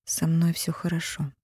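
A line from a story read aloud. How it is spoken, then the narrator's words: Quiet. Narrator (Russian): тихо сказала та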